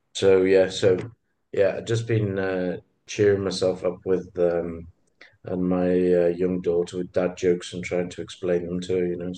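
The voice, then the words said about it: Sick, under-the-weather voice. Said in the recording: “you can probably hear it in my voice. I've been sneezing a bit and a bit under the weather.”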